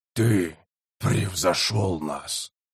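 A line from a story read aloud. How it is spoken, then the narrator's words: Whispered. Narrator (Russian): прошептал Халат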